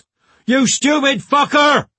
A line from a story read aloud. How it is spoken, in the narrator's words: yelled the driver